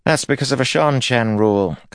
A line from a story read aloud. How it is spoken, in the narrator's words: Cathana said